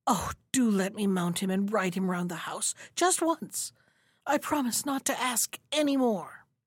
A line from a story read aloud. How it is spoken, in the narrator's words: so filled with wonder that he was not able to speak, but at last he gasped out